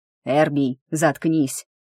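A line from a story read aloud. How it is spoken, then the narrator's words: Growled. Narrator (Russian): рыкнул Титан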